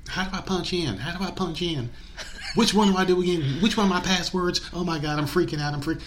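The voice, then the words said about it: Put-on Southern old lady voice. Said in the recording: “the sweet southern voice old lady ... You do a good accent.”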